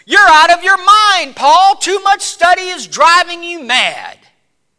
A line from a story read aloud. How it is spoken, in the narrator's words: Festus exclaimed in a loud voice